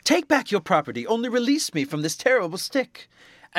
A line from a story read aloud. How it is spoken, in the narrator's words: The landlord, who felt himself at death's door already, cried out